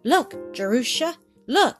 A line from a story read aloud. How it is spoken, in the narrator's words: he cried